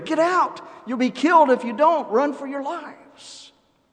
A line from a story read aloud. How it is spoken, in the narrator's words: this odd young fellow yelled to the others there